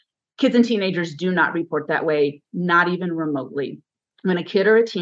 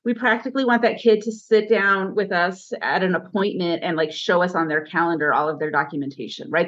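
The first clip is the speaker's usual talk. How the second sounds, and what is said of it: Sarcastic tone. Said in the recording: “I'm being sarcastic”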